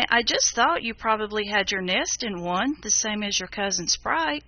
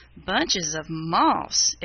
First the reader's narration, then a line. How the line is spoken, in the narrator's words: exclaimed Fidget